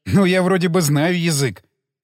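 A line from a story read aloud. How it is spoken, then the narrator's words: Laughing. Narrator (Russian): засмеялся я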